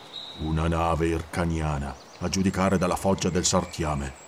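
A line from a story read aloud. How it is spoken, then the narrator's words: Grumbled. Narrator (Italian): borbottò Conan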